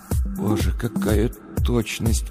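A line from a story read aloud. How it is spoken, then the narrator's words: Whisper. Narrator (Russian): прошептал Сергей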